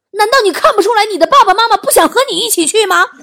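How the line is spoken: Mother shouting. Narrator (Chinese): 我妈大喊一声

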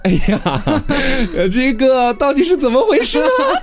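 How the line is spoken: Startled, laughing. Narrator (Chinese): 隔壁老王吓了一大跳，他笑着说

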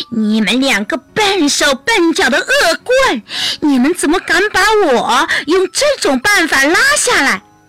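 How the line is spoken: Dwarf shrieking at full volume. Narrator (Chinese): 等小矮人喘匀了气以后，他用最大的声音尖叫着

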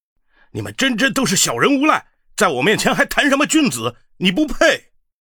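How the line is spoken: Furious. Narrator (Chinese): 玄海大怒，逼近道

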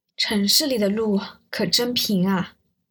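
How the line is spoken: Exclaiming in wonder, group. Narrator (Chinese): 他们每一个支教的人都感叹

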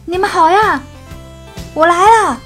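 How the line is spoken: Shouting. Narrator (Chinese): 斯坦利喊

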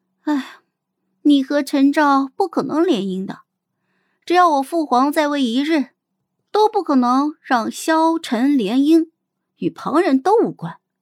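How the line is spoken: Sighing, blunt. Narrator (Chinese): 我轻叹了一声，直白的对他说

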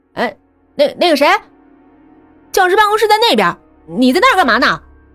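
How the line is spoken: Shouting. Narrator (Chinese): 保安……喊道

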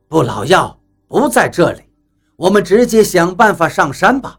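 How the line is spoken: Smiling. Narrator (Chinese): 比利……笑了笑……道

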